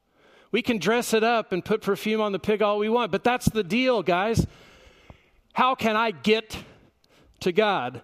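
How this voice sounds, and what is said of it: Preaching in a loud yell. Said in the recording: “I better stop yelling or I'm going to lose my voice.”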